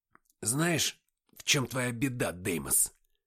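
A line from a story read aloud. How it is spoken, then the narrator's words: Hoarse. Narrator (Russian): хрипло сказал я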